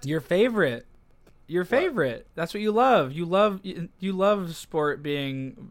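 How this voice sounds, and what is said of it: Sarcastic teasing tone. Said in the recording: “I'm being sarcastic”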